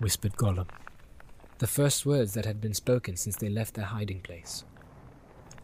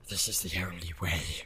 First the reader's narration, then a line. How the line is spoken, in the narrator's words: whispered Gollum